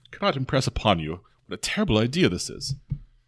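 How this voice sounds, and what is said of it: Faintly British character voice. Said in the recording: “the skull responds in a kind of a faintly British accent”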